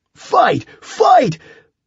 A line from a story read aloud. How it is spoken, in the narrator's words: Green sprinted across the restaurant, yelling